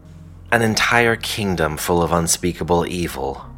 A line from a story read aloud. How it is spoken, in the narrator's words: Calbrus said mockingly